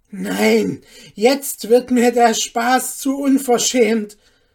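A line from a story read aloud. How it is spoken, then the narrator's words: Calling out. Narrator (German): rief Hanne ihrer Nachbarin zu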